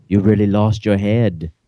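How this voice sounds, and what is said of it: Christopher Lambert accent impression. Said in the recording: “That was my Christoph Lambert accent.”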